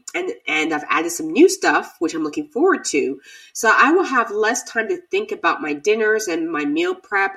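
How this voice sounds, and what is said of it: Voice sounds off, unwell. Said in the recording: “As you can hear, my voice is still off”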